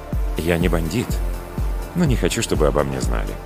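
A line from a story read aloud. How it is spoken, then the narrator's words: Quiet reply. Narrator (Russian): негромко ответил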